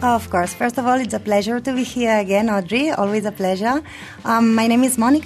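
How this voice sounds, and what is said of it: Spanish accent. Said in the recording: “as you can see, per my accent, I'm from Spain, from Barcelona”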